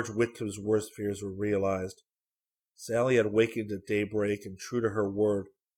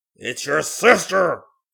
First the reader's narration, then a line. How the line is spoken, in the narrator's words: shout